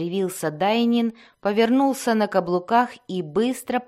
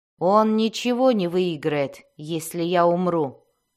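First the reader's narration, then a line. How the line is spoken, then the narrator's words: Plain. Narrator (Russian): ответил Зак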